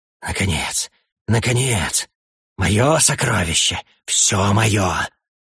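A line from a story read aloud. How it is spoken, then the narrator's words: Lustful mutter. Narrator (Russian): бормотал сладострастно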